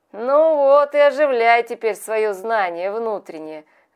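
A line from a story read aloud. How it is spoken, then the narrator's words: Laughing. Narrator (Russian): говорил он, смеясь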